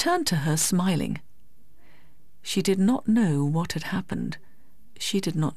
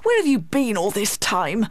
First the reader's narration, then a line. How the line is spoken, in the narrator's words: cried crossly